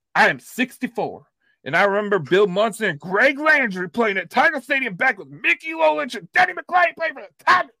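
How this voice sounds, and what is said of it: Old person voice, Southern accent. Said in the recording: “let's talk in my old person voice ... No, that was a Southern accent.”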